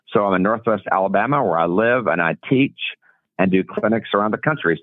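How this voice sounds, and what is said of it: Genuine regional accent. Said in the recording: “I love the accent. ... It's for real.”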